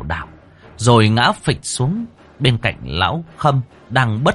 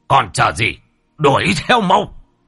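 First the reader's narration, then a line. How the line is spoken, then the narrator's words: Barking shout. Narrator (Vietnamese): Ông Bá Hùm quát lên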